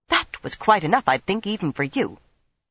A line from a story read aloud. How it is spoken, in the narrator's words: Nynaeve snapped back